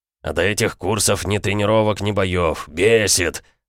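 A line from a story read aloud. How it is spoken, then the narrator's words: Angry bark. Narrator (Russian): рявкнул Бронзовый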